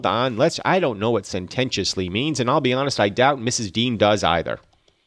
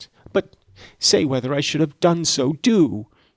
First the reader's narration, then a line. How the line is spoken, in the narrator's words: she exclaimed, in an irritated tone